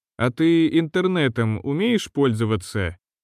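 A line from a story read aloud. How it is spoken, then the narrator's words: Gentle, as to child. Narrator (Russian): ласково как к ребенку обратился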